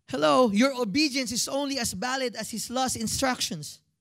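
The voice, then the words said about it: Speaker's own accent slipping out. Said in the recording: “See, that was my accent. It came out.”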